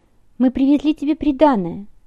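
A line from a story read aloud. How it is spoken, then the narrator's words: Joyful angel. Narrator (Russian): радостно сказал ангел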